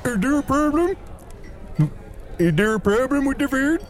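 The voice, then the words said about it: Canadian accent. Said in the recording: “I think that guy's Canadian.”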